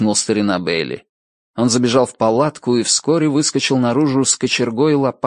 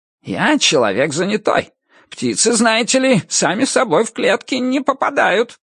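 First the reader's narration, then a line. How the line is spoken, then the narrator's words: Squeaky, rat. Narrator (Russian): Крыса что-то пропищала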